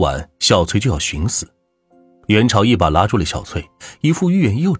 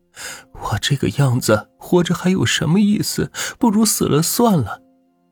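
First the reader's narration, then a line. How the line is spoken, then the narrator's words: Weeping. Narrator (Chinese): 小翠哭泣着跟元朝说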